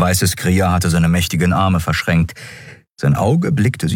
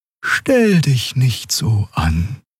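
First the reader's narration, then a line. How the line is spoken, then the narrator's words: Gentle voice. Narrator (German): sagte sie mit sanfter Stimme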